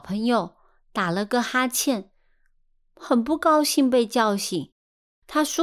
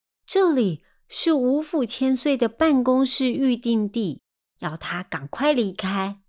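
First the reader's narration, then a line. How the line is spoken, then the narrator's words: Impatient. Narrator (Chinese): 脾气有点急躁的二王爷，他说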